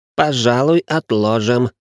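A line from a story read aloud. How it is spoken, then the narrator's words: Overly cheerful. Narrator (Russian): излишне бодро передумал Ричард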